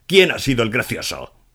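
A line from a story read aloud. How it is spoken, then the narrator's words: Bellowing. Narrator (Spanish): bramó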